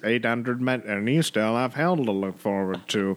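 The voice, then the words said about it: Poor imitation of another person's voice. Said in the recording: “my worst impression I've ever done ... It's deteriorating”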